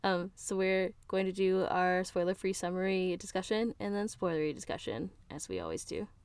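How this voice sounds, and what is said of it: Sick, congested-sounding voice. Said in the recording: “I have a cold. ... It's damaging the quality of the podcast”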